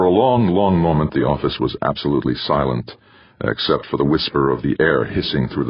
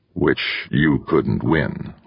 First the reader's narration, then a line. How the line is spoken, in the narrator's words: Wanamaker said grimly